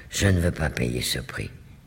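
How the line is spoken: Low voice after pause. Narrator (French): dit, après un léger silence à voix basse

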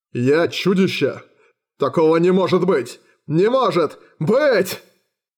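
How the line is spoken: Roared. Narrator (Russian): Под конец он взревел

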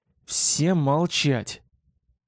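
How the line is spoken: Hiss. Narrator (Russian): Скорее прошипел, чем сказал я

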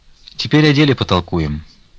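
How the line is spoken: Calm voice. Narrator (Russian): сказал спокойным голосом

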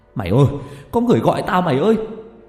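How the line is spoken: Shouting. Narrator (Vietnamese): Có thằng còn hét lên

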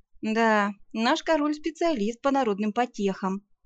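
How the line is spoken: Sighed. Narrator (Russian): вздохнула

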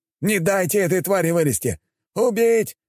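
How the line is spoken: Hateful shouting warriors. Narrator (Russian): кричали воины, испытывая лютую ненависть к росомахе

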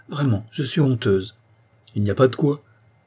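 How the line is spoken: Good-natured reply. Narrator (French): répliqua-t-il d'un ton bonhomme

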